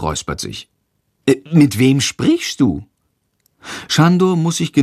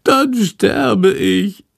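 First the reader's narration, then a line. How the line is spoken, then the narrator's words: Wailing. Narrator (German): jammert Schandor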